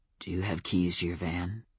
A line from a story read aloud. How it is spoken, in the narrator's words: He asked, his voice a dark caress